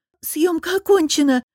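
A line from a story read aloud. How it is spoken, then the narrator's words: Hoarse squeak. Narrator (Russian): пискнула севшим голосом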